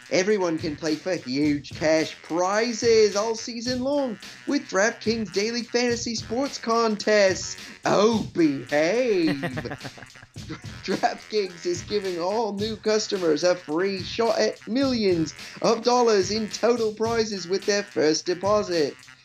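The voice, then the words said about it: Terrible mixed Australian-British put-on accent. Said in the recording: “That was a truly terrible, I think, kind of Australian-y English accent. ... Yeah, it was Scottish-Australian British accent there.”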